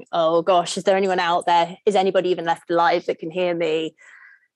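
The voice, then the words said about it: Put-on American accent. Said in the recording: “that was a great American accent? ... it was amazing”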